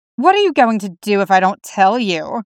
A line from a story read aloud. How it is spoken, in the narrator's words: Damien sneers, recovering at last